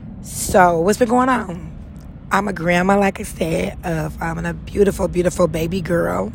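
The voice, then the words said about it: Raspy voice. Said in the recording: “excuse my voice. It's already raspy, but just imagine recording early in the morning. It's really raspy,”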